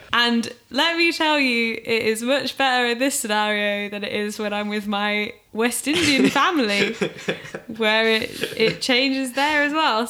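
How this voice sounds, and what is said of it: English accent, northern with Oxfordshire traces. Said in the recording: “your accent in the piece ... it's a big northern elephant ... I've lived in Manchester for 6-7 years and I'm from Oxfordshire which you can probably hear nuances of throughout ... My accent has forever changed in the wind”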